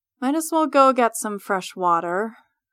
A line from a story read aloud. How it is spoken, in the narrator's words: I mutter to myself